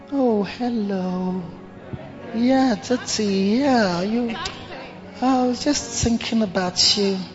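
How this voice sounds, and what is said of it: Exaggerated sweet respectful voice. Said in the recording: “Some even develop a special respectful accent when they are talking to you.”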